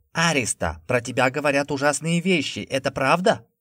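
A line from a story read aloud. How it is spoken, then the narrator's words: Loud yelling. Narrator (Russian): Заорала она на весь коридор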